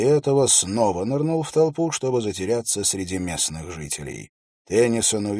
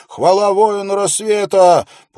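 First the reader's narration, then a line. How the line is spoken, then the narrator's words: Yelling. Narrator (Russian): снова завопил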